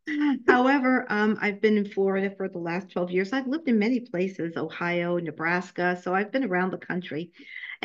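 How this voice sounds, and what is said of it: New York accent. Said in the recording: “I was born and raised in Brooklyn, New York, so I'm sure you can hear my New York accent.”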